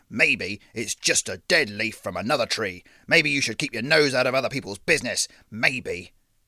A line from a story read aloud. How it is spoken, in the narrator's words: he said, letting his voice drop